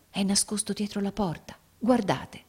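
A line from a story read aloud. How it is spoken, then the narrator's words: Whispered. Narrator (Italian): egli bisbigliò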